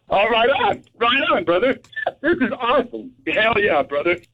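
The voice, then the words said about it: Excited yelling, going hoarse. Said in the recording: “I'm getting hoarse because I'm yelling. I'm excited... You're going hoarse?”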